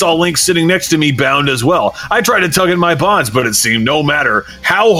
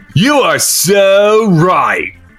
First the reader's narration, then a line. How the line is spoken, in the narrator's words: called the sneering voice again